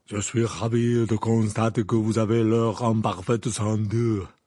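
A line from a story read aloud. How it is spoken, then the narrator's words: Deep-voiced reply. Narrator (French): répondit Madame Maxime d'une voix grave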